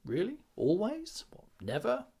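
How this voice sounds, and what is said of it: Annoying, mocking questioning tone. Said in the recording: “playing these back in a sort of an annoying way, in sort of tilting my head like coaches do ... in that annoying voice.”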